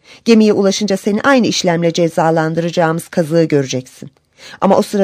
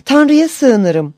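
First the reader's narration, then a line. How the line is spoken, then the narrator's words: Crying out. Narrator (Turkish): diye haykırmış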